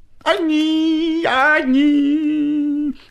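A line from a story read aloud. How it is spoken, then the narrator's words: Goatish bleating singsong. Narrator (Russian): Козлиным голосом запел длинный клечатый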